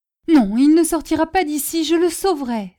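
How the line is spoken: Exclaimed. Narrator (French): s'écria-t-elle

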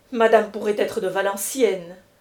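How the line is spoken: Curt, dry tone. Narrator (French): dit Europe d'un petit ton sec

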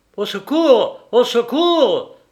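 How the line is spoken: Cried out with full force. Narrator (French): s'écria Coquardeau de toutes ses forces

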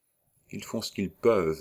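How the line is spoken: Old man whispering in ear. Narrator (French): murmura le vieux colonel, à l'oreille

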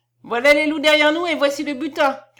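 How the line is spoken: Shouting. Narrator (French): cria Josta

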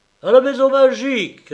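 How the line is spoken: Shouted. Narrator (French): cria-t-il

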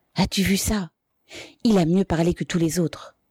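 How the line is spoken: Whispered in someone's ear. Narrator (French): chuchota Sisov à l'oreille de la mère

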